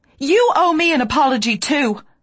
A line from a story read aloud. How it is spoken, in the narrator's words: snapped